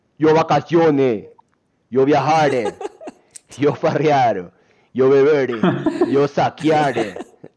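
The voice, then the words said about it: Comic monkey character voice. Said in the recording (Spanish): “Pero con acento de mono.”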